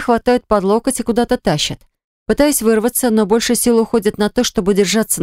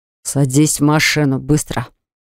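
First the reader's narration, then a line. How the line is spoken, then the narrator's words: Grim command. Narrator (Russian): Мрачным тоном приказывает мне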